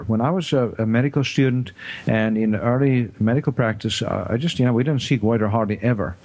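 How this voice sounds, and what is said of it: South African accent. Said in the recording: “I grew up in South Africa and did my medical training there ... that's why I have this strange accent”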